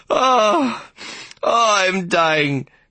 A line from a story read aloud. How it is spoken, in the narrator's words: she moaned